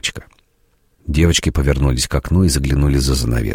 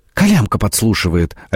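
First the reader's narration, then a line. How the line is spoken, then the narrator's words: Exclaiming. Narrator (Russian): воскликнула Фрося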